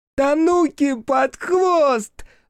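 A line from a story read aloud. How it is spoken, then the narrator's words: Ear-ringing yell. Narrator (Russian): заорал Кикерики так, что зазвенело в ушах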